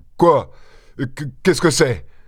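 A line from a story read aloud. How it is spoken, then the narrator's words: Stammering. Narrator (French): balbutia Maître Gousseau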